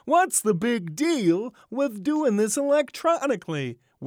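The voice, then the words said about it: Bad Jerry Seinfeld impression. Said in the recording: “sort of in Seinfeldian voice ... Worst Seinfeld impression ever.”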